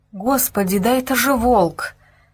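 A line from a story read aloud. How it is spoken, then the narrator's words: Frightened girl whispering. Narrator (Russian): испуганно прошептала девушка, не веря своим глазам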